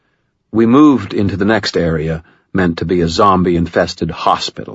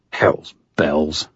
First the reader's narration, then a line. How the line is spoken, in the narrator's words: I muttered